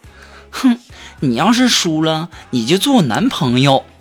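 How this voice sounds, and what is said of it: Shy, soft, quiet voice. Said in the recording (Chinese): “女神害羞小声的说”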